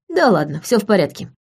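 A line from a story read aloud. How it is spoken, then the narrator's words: Amused snort. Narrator (Russian): хмыкнул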